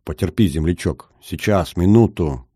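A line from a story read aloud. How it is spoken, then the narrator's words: Muttering rescuer. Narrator (Russian): бормотал спасатель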